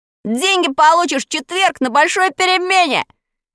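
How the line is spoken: Shout. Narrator (Russian): крикнул

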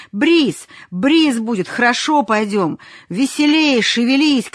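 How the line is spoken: Shouting. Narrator (Russian): крикнул матросам

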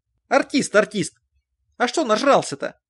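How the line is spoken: Stern question. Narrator (Russian): спросил Стефанович строгим тоном

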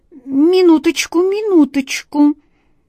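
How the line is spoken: Composed exclamation. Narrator (Russian): С необыкновенным самообладанием воскликнул

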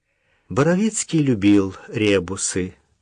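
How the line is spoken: Calm. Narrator (Russian): продолжила Даша спокойно

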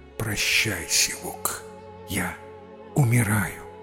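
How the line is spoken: Weak dying whisper. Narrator (Russian): Из последних сил прошептал своему коню на ухо

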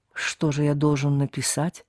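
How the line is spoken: Whispering. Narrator (Russian): Оба говорили шепотом

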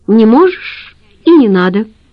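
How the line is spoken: Cheerful. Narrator (Russian): весело сказала Ира

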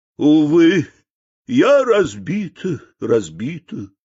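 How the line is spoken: Sobbing. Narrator (Russian): зарыдала корыто

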